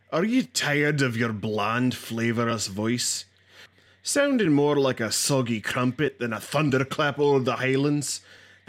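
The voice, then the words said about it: Put-on Scottish accent. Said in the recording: “Angus MacLeod's Authentic Scottish Accent Academy”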